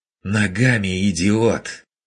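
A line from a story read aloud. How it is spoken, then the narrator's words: Breaking into hoarse squeal. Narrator (Russian): Сорвавшись на хриплый виск, откликнулся голос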